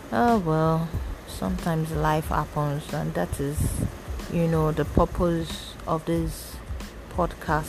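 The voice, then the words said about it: Low, subdued voice. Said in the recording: “my voice is low”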